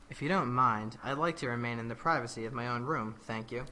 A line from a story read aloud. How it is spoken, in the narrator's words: He spoke in a much more sedated tone and said